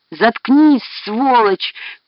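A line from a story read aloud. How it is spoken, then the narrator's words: Tearful shout. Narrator (Russian): крикнул сквозь слезы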